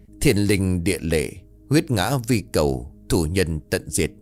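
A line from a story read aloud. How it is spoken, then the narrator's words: Hoarse drawn-out chanting. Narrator (Vietnamese): Lão thầy Tàu bắt đầu ê a đập chú, thành âm khàn khàn kéo dài nghe như là tiếng gió rít qua khe mả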